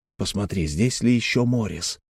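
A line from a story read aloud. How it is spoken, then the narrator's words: Barely audible whisper. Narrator (Russian): все так же еле слышно прошептал Грант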